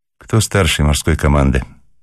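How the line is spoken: Tired question. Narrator (Russian): спросила она устало

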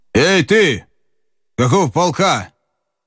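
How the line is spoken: Shouted. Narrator (Russian): Бессонов крикнул

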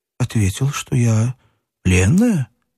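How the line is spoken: Calm. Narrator (Russian): спокойно сказала Катя

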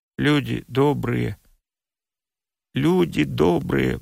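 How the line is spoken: Muttering. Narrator (Russian): бормотал Перепинчук

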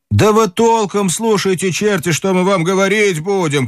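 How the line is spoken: Shouting. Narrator (Russian): кричали они

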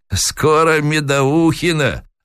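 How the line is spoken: Sly old man. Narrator (Russian): лукаво ответил старик

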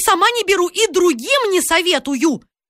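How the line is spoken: Ominous shouting. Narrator (Russian): Она кричала так зловеще

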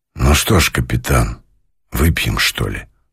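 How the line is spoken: Quiet speech. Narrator (Russian): сказал он тихо

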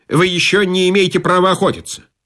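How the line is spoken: Broken-off start. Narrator (Russian): начал было проф, оборвал

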